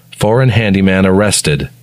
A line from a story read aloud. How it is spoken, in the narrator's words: says Michael